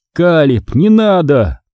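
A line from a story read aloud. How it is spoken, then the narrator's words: Yelling over noise. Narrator (Russian): заорал, пытаясь перекричать шум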